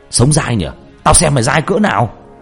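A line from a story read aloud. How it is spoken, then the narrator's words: Furious shout. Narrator (Vietnamese): Nó điên tiết, nó hét lên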